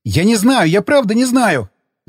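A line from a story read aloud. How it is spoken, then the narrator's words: Terrified yell. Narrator (Russian): заорал он, увидев, как я поднял с пола моток троса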